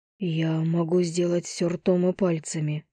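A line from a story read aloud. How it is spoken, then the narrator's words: Whispered. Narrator (Russian): прошептал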